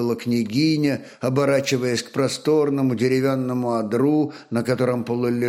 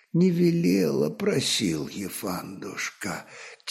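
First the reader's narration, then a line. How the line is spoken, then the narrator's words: Quiet reply. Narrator (Russian): тихим голосом ответил Рарок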